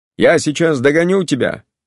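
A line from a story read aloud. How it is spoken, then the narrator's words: Shout. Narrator (Russian): крикнул он Яшвину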